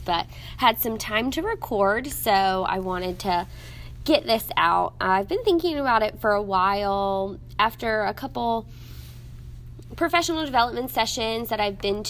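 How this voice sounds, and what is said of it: Voice slightly off, congested. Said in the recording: “My voice is a little off because I think allergies”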